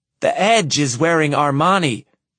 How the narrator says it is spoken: she shouts

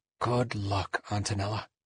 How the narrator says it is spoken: he said to himself under his breath

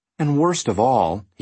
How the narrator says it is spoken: he continued sadly

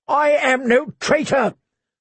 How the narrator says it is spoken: screeched the prisoner

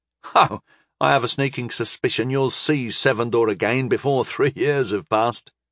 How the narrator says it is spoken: he chuckled

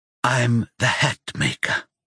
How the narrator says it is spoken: he says quietly

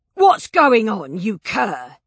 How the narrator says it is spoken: he snarled

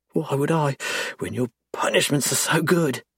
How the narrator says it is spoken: She whimpers

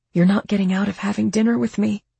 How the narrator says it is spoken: Aline whispered

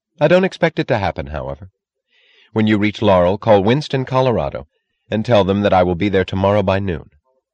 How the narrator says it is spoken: said firmly

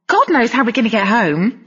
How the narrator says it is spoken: Lily said cheerfully

